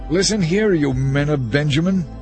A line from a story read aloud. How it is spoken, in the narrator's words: Saul shouted when he heard the news